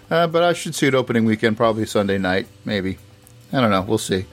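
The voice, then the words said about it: Rough, slightly off voice. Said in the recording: “I woke up this morning with a sore throat... my throat, my throat, my voice is a little off”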